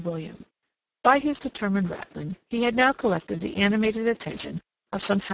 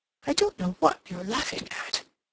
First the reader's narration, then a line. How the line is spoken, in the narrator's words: he muttered